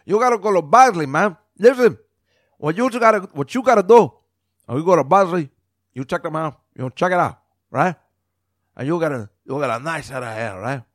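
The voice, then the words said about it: Exaggerated Scarface-style gangster accent. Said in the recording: “I just made this crazy accent. ... He doesn't talk like that at all. ... I'm making the Scarface thing”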